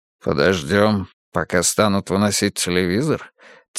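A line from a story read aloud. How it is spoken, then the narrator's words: Quiet question. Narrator (Russian): тихо спросил Улли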